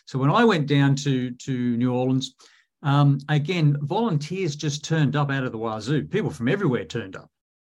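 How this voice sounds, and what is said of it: Southern American accent. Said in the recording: “I've got a Southern accent”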